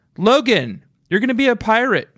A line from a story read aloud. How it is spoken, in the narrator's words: she yelled